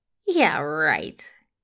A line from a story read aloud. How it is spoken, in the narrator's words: he grins, laughing